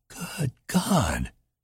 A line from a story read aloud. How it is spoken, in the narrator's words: Anita whispered shakily